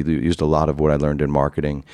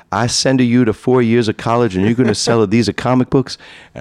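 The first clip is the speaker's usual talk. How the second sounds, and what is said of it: Imitates another person's accent. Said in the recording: “I should do it in my father's accent.”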